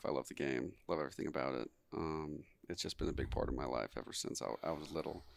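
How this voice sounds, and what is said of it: Texan accent. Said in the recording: “you're from Texas. You can tell from your accent.”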